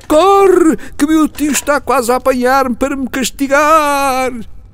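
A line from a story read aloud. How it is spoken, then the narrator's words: Boy shouting from afar. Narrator (Portuguese): indo já muito longe, o rapaz tornou a gritar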